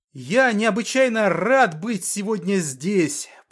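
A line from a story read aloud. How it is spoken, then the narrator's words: Shouted. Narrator (Russian): прокричал Артем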